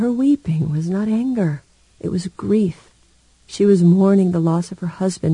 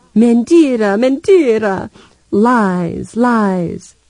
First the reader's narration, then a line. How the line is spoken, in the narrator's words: Bruxinha, Libo's widow, tears streaming down her face, and wailed